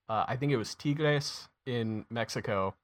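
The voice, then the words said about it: Attempted Spanish accent. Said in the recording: “That was my attempt at a Spanish accent. ... It was almost on par with Zealand's.”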